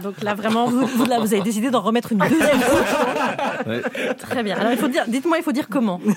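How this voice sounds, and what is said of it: Belgian French accent. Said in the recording (French): “ce ton nouveau, cet accent belge”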